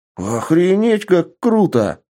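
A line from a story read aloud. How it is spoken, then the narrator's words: Young man exclaiming excitedly. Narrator (Russian): воскликнул парень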